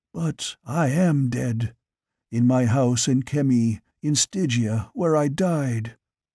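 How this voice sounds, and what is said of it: Eerie whisper. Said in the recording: “came the eerie whisper.”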